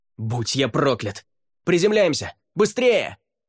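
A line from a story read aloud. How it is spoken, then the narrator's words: Yelling. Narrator (Russian): заорал Райордан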